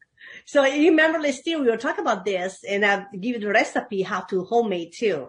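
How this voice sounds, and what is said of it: Noticeable foreign accent. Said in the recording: “sometimes you talk funny ... I have an accent here. I talk funny ... And you got an accent?”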